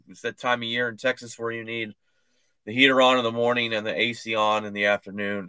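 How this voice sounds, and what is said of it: Hoarse, failing voice. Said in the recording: “my voice sounds a little weird. It's going out. ... it's hacking up loogies left and right”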